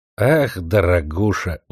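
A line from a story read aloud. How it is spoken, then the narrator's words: Tired smiling. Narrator (Russian): устало улыбнулся Дзержин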